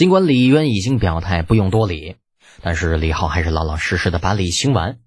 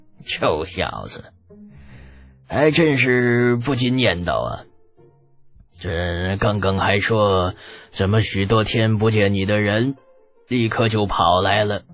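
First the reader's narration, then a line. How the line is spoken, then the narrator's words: Happy, laughing. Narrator (Chinese): 李渊很是开心，笑着说道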